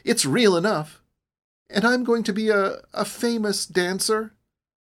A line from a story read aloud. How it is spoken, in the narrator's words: cried